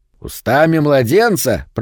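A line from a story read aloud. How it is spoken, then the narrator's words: Deep booming voice. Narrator (Russian): прогудел бородатый грязнуля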